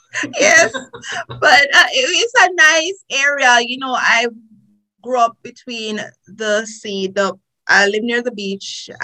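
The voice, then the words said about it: Jamaican accent. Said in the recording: “as you can hear from my accent, I am a Jamaican”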